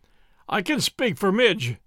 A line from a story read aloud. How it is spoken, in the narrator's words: said he